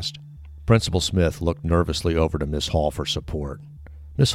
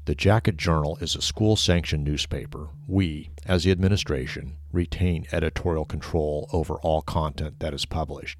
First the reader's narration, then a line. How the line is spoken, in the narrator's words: said flatly